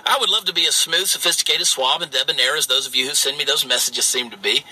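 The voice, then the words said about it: Southern US accent. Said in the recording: “your Southern accent ... I grew up in the state of Georgia where Southern dialect really was our only option”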